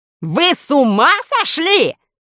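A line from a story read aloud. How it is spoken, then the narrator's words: Yelled. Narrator (Russian): заорал министр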